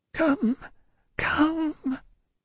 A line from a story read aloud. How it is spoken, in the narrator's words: said he, in a whimpering, miserable way